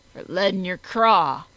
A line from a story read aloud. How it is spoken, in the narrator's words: growled the Dark One